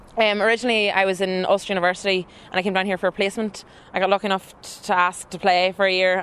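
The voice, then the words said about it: Northern Irish County Down accent. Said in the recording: “that beautiful Down accent”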